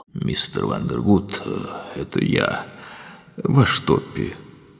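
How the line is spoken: Tender moan. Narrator (Russian): Топпи нежно простонал

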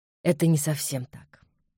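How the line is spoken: Soft reply. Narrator (Russian): мягко ответил Ян

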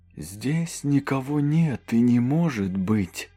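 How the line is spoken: Muffled priest's voice. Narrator (Russian): Голос священника прозвучал глухо

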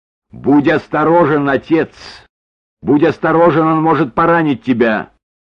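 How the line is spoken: Warning shout. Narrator (Russian): Маргарет крикнув

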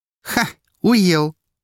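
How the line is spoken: Laughing over the phone. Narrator (Russian): рассмеялась она в трубку

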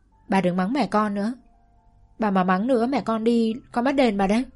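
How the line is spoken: Annoyed child. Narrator (Vietnamese): Tôi thấy bà lớn tiếng thì khó chịu nói

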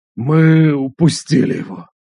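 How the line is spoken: Growl. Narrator (Russian): прорычал он

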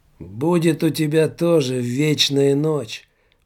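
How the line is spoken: Hoarse wheeze. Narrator (Russian): прохрипел голос

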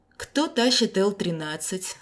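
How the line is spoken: Stern question. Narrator (Russian): строго поинтересовался он

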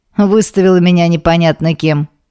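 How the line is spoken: Offended. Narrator (Russian): обиженно произносит брат

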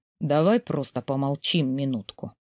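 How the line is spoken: Muffled voice. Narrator (Russian): раздается глухо

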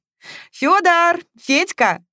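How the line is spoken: Cheerful shout. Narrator (Russian): весело кричала

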